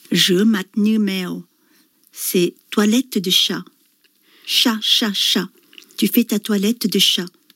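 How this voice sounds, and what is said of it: French spoken with put-on Vietnamese accent. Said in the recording (French): “tu vas nous dire avec l'accent, hein, cette comptine vietnamienne ... avec cet accent, bien sûr”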